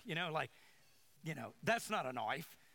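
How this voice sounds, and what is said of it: Imitated New Zealand/Australian accent. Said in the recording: “the accent. But they're going to say it's different, but it sounds like he's from Australia ... I said I wasn't going to do it, but I did it anyway”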